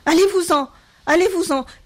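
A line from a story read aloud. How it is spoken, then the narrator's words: Increasingly agitated shouting. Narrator (French): cria-t-elle de plus en plus excitée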